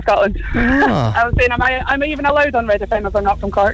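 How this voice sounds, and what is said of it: Scottish accent. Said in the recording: “Where's that lovely accent from? ... I'm from Scotland”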